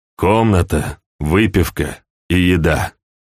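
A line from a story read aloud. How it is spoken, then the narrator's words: Plain. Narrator (Russian): сказал гость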